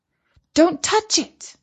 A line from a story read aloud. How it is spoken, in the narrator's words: said Katie urgently